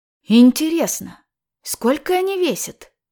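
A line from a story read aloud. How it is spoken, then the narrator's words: Whispered question. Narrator (Russian): спросила шепотом Снежина у Павлыша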